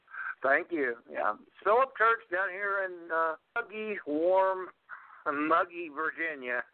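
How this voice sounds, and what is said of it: Southern American drawl. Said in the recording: “you got that southern drawl about you”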